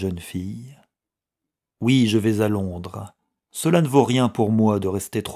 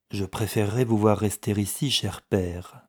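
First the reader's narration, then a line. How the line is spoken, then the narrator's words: Gentle. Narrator (French): dit doucement Margaret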